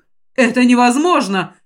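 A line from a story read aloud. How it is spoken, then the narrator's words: Exclaimed. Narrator (Russian): воскликнул Тышар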